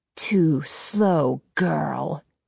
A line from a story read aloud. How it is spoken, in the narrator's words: growls